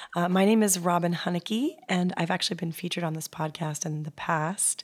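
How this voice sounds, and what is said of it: Hoarse voice. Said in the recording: “You may have already noticed from my voice that I'm a little bit hoarse”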